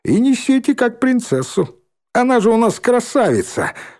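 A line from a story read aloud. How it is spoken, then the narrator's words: Laughing. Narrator (Russian): Шмакова засмеялась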